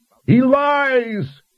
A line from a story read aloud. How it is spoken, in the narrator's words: Ander's spirit cried out